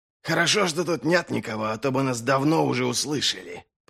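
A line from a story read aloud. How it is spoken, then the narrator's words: Hissing. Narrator (Russian): прошипел Доу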